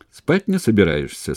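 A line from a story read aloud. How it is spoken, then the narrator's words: Cheerful question. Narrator (Russian): спросил он весело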